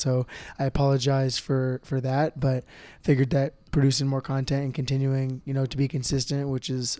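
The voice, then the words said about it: Scratchy, hoarse voice. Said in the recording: “My voice is a little bit scratchy, a little bit hoarse just from using it so much”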